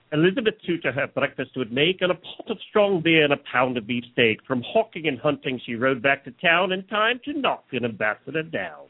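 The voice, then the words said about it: Bad put-on Old English accent. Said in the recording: “if you can't even do Old English ... That was awful. That was awful. That is the worst accent.”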